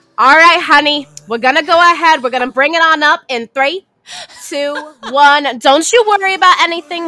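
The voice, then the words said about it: Put-on grandmother's accent. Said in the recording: “accent that you were saying in the last break ... I feel like I sound exactly like my grandma when I do that, because my grandma sounded like that. And like she would add S's to everything.”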